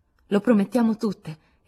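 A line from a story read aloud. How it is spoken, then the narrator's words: Exclaimed. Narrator (Italian): esclamò Meg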